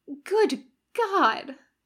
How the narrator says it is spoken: moaned

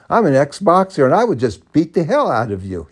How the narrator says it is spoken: he yelled at me

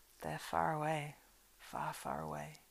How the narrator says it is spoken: he said sadly

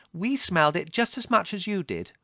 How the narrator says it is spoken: said Margot indignantly

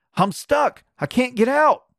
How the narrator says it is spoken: cried Neddie, and his voice sounded as if it were down cellar

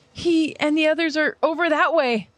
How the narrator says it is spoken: Historia nervously answers

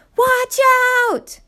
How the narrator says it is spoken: Nina scream behind him

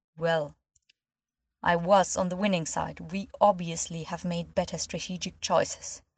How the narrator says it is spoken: said in a cold voice

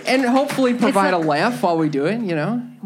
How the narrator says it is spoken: Major laughs

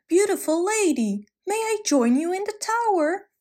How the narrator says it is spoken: yelled up

